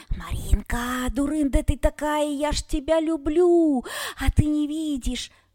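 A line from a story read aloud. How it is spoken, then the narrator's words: Wheezy rasp. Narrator (Russian): просипел коротконогий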